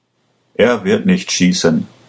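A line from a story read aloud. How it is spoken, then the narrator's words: Calm official. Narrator (German): sagte der Beamte ruhig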